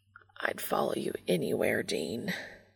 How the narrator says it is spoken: Castiel mutters

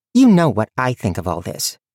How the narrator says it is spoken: she said, her tone sharp

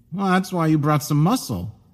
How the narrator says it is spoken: declared Chris

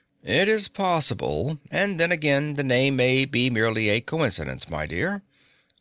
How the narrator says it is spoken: the little man answered sleepily

